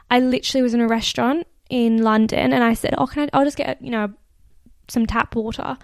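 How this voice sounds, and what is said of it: Australian accent. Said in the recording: “I think it's my Australian accent. They just can't understand it.”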